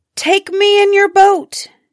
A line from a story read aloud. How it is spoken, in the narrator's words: she cried